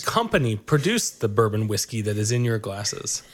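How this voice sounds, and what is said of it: Questioning in a teacher-like voice. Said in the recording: “You have too good of a teacher voice when you ask those questions.”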